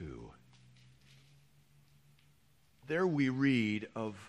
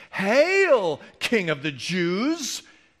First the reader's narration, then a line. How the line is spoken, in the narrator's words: they mocked him